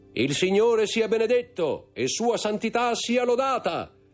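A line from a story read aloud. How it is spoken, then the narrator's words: Loud, clear voice. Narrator (Italian): disse con voce alta e chiara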